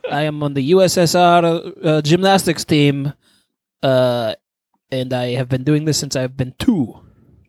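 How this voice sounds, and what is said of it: Put-on Russian accent. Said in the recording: “I don't know if you have any Russian ... Russian accent.”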